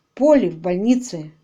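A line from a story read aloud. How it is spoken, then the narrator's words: Gloomy. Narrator (Russian): мрачно сказал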